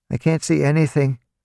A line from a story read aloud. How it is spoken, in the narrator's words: Spindle said, his voice shaking